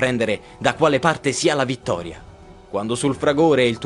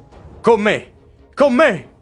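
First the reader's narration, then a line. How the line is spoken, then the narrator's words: Shouted. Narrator (Italian): grida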